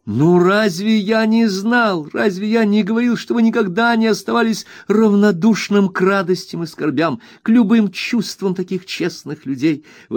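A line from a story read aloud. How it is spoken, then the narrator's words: Exclaiming. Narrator (Russian): воскликнул я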